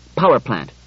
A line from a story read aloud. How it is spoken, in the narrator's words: said Bailey curtly